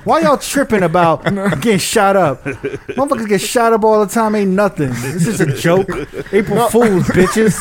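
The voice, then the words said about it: Put-on Los Angeles accent. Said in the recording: “That's my L.A. accent”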